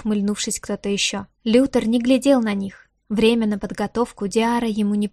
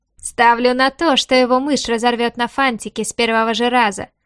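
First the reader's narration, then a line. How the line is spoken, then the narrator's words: Chuckling. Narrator (Russian): хохотнул Антел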